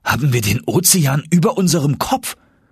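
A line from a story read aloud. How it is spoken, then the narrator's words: Called out. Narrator (German): rief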